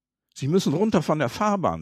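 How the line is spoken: Plain. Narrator (German): sagte ein Mann

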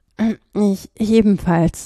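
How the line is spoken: Cracked voice. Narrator (German): sagte mit brüchiger Stimme

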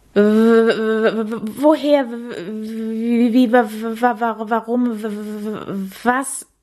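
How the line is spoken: Surprised stammer. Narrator (German): stammelte Käthe überrascht

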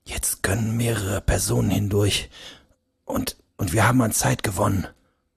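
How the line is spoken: Quiet. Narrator (German): begann er leise zu sprechen

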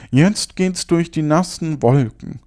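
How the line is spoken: Called out. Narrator (German): rief er

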